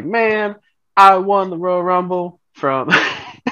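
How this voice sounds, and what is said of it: Southern drawl imitating another person. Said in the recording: “What's your southern drawl, boys? ... He's from North Carolina. ... Jeff, that's how he sounds. It was actually pretty good.”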